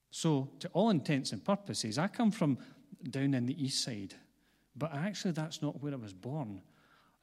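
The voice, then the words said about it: Glaswegian Scottish accent. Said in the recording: “I grew up on the east side of Glasgow, which is where my accent comes from”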